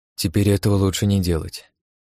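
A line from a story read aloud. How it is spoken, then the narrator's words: Sighing. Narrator (Russian): вздохнул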